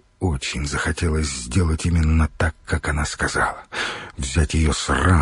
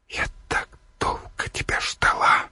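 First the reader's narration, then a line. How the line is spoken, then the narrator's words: Trembling whisper. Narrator (Russian): шептала девушка, вздрагивая от его прикосновений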